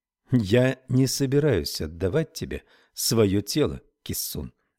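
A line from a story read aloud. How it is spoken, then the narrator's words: Calm. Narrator (Russian): сказала она спокойно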